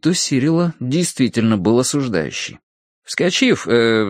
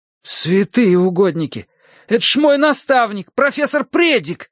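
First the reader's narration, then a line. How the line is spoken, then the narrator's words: Exclaimed. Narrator (Russian): воскликнул Терренс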